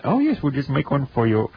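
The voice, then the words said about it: Mediocre put-on Indian accent. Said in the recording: “That's my Indian accent. It's about as good as my French accent”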